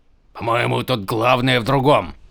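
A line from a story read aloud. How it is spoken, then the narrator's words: Grumbling. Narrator (Russian): проворчал камень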